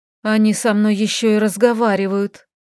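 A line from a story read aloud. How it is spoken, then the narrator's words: Breathless exhale. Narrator (Russian): выдохнула Лилька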